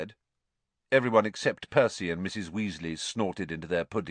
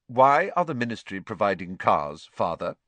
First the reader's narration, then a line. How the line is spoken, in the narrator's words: Percy asked again in a dignified voice